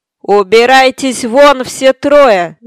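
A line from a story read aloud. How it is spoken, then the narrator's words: Screamed. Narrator (Russian): завопил адвокат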